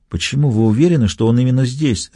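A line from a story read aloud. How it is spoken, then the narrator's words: Whispered. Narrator (Russian): шепнул я Фаулеру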